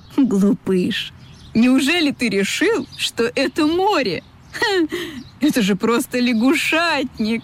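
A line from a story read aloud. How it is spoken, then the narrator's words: Laughing gull. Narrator (Russian): засмеялась чайка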